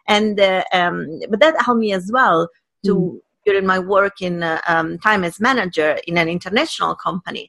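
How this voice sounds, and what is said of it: Italian accent in English. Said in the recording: “the real me is someone who is Italian, speaking English with an Italian accent.”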